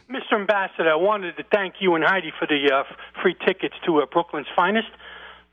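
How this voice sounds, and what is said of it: Slight accent. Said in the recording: “He's got a little bit of an accent that's slightly gives him away.”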